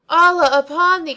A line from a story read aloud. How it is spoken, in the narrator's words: cried I